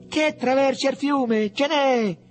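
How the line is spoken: Excited group shouting. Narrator (Italian): gli gridarono dietro Mariuccio e Borgo Antico, tutti emozionati

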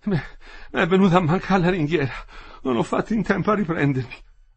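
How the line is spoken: Panting speech. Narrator (Italian): Ansimava, diceva

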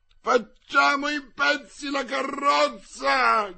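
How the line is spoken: Crowd shouting. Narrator (Italian): gridava il popolo

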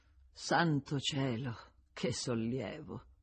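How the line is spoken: Sighing. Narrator (Italian): Con un sospiro aveva aggiunto

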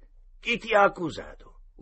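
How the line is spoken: Yelled. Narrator (Italian): urlò una voce

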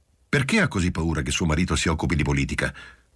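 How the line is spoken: Aggressive question. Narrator (Italian): domandò a Giulia in tono aggressivo

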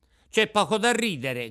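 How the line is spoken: Offended shout. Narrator (Italian): gridò Pinocchio impermalito

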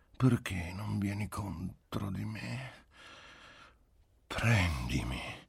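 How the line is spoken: Pleading voice. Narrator (Italian): nella sua voce implorante gli parve di avvertire quasi un rimprovero

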